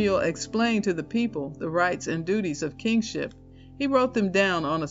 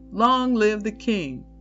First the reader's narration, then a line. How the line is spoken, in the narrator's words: the people shouted